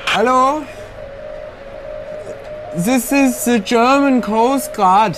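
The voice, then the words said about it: Put-on German accent. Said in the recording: “My best German accent.”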